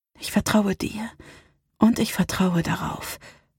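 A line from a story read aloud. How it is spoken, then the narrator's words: Whisper. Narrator (German): flüsterte sie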